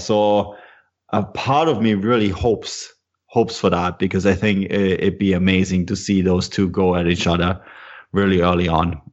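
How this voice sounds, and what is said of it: German-Canadian accent. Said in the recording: “your German-Canadian accent”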